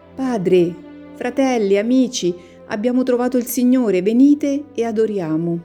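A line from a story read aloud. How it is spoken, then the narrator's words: Shepherd boy shouting. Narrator (Italian): Il pastorello grida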